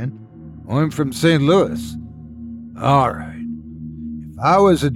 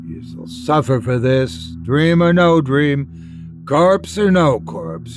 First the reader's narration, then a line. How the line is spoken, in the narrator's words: he groaned